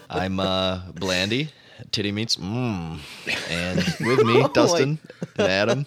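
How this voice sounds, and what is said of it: Impression of another person's voice. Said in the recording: “That's my best Eric impression.”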